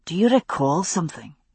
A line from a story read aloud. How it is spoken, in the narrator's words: he asked in a low voice